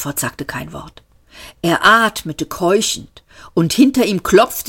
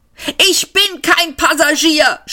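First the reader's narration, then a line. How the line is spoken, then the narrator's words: Shouted again. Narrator (German): schrie Seyford nochmal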